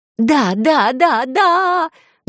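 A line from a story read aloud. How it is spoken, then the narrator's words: Joyful chanting. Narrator (Russian): гласила я радостно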